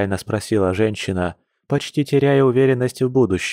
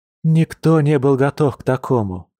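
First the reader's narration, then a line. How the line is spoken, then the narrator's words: Sad sigh. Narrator (Russian): печально вздохнув, произнесла Маша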